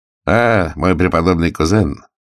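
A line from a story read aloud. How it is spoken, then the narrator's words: Mocking greeting. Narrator (Russian): насмешливо приветствовал он меня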